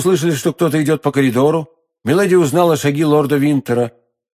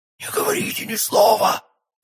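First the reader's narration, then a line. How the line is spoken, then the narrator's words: Choked, strained voice. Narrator (Russian): сказала она сдавленным голосом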